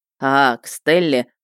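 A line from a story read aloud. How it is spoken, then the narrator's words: Knowing snort. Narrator (Russian): хмыкнул Потапыч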